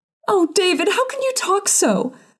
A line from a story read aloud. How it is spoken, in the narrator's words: sobbed her mother